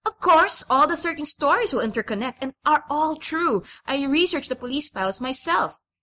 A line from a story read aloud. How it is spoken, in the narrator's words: Susan was explaining, a little too loudly as usual